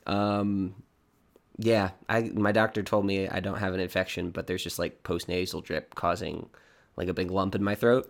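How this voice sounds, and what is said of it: Hoarse, froggy voice. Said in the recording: “I sound like a frog”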